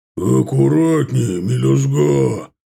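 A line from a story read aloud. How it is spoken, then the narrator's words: Booming bass. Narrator (Russian): гулким басом прогремело над головой Ардана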